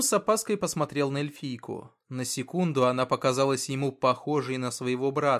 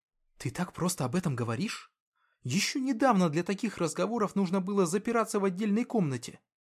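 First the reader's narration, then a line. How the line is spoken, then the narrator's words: Young man whispering. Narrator (Russian): прошептал парень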